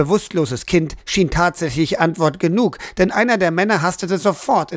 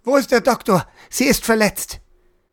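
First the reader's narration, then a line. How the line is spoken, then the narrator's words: Called out. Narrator (German): rief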